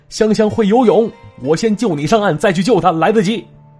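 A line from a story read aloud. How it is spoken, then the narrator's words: Loud shout. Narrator (Chinese): 这泥鳅大喊了一声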